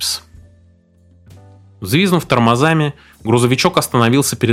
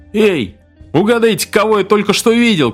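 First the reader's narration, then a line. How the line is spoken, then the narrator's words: Shouting. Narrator (Russian): крикнул он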